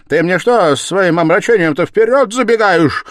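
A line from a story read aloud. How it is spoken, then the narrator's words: Shouted, almost angrily. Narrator (Russian): крикнул почти со злобой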